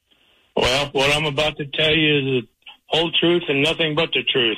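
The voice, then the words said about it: Missouri accent. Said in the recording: “A caricature... Of a Missouri man... This is typical Missouri. And wait till you hear his accent.”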